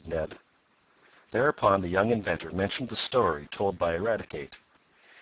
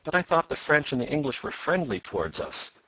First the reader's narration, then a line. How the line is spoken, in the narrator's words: Ned exclaimed